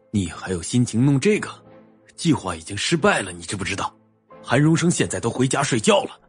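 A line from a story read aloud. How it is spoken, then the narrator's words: Harsh, angry. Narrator (Chinese): 男人瞪眼厉声的说道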